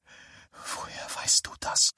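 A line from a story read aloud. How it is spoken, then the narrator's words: Whispered. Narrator (German): flüsterte sie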